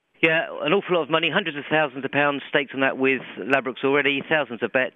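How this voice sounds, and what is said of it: British accent. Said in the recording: “as you can probably tell from his accent, he's British”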